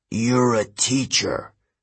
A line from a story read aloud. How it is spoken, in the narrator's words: Kronos sneered